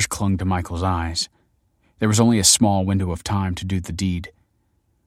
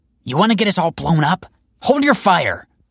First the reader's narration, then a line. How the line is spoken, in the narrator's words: hissed Clerkenwell